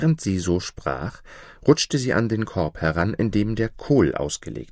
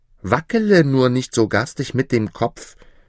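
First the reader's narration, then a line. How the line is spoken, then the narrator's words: Little one calling angrily. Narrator (German): rief der Kleine wütend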